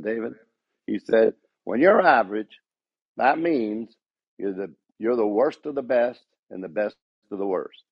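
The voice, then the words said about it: Put-on Southern accent. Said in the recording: “in a southern accent”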